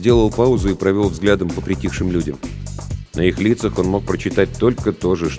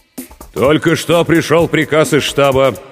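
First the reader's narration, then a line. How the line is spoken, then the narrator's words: Steadier, stronger voice. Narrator (Russian): продолжал Борисов окрепшим голосом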